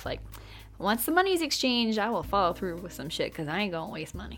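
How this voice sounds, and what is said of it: Country accent slipping out. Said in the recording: “that was letting my country accent come out a bit there ... let me get back to my proper radio voice”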